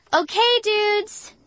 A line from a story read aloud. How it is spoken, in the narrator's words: Sabrina shouted